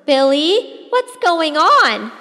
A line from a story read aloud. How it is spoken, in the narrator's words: Mama yelled